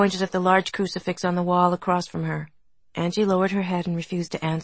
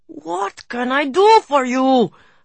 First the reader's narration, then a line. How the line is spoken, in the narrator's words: her father was shouting now